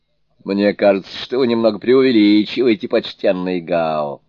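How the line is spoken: Laughing. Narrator (Russian): смеясь сказал Суню-кун

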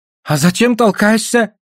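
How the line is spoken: Offended shout. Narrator (Russian): с обидой крикнул Гольд

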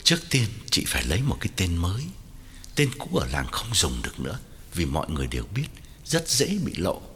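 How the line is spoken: Lowered voice. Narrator (Vietnamese): Quảng hạ giọng bảo Hậu

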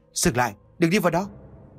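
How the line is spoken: Sudden loud shout. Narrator (Vietnamese): Bất chợt cô Lại liền hét lớn

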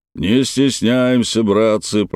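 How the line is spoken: Booming soldier's voice. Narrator (Russian): прогудел долговязый боец с лычками офицера на наплечнике

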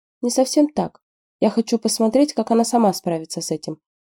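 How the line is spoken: Gentle reply. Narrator (Russian): мягко ответил Мо Тин

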